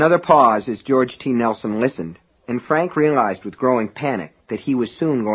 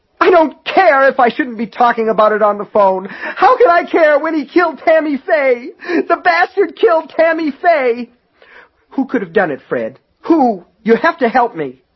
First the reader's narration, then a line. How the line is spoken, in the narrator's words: cried out